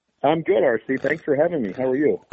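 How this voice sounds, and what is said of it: Voice much lower than normal. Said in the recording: “My voice is a couple octaves lower than normal because my family has, I think, suffered through COVID-19”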